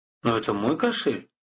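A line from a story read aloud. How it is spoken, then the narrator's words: Confused mutter. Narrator (Russian): растерянно пробормотал Рыжебородый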